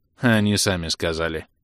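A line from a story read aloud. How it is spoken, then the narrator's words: Caustic snort. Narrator (Russian): едко фыркнул тот в ответ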